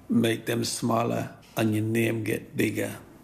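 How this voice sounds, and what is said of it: Put-on Jamaican accent. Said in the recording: “In a Jamaican accent.”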